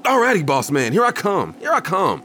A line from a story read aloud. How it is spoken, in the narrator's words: I shouted back, nodding and smiling compliantly